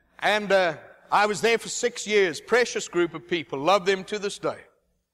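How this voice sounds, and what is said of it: Cajun accent. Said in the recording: “That's why I speak with a Cajun accent.”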